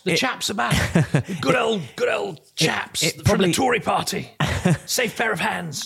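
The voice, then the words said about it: Poor posh toffee-nosed Tory impression. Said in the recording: “that rubbish impression of a toffee-nosed Tory”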